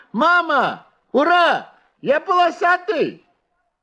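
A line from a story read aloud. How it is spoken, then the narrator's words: Shouted. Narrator (Russian): закричал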